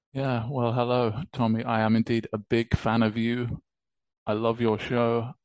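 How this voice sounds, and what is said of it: British accent. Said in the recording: “You might recognize uh, my accent. It's uh, British”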